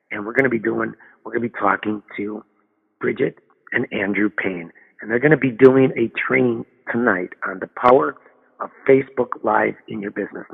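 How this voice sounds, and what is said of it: Hoarse, strained voice with throat-clearing. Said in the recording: “excuse me if I'm clearing my throat ... I'm losing my voice.”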